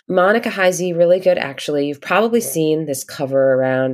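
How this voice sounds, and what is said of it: Congested voice from a cold. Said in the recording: “I've got a little bit of a cold, so my voice sounds a little weird today.”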